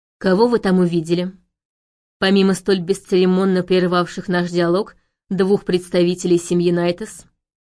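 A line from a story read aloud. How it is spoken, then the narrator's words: Angry question. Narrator (Russian): Зло поинтересовался магистр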